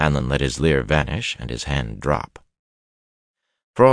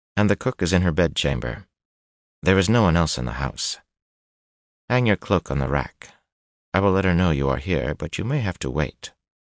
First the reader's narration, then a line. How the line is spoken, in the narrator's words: she said calmly